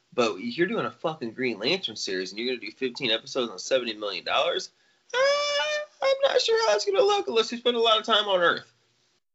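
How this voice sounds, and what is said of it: Imitates another person's voice. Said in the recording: “I love how you said that in your George Lucas voice”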